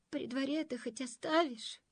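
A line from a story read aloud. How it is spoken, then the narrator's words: Whining, former king. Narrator (Russian): захныкал бывший король-прикороль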